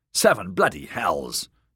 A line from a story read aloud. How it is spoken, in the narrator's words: Darian snapped